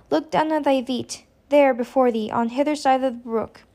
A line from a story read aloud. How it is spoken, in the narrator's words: said she sadly